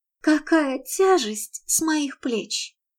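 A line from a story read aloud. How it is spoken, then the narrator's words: Wry smiling. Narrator (Russian): криво улыбнулась она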